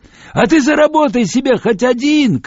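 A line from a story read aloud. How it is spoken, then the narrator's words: Shouting. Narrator (Russian): крикнул он мне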